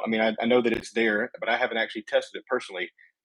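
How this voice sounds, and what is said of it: Thick Southern US accent. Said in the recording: “my southern accent coming out thick, very quick”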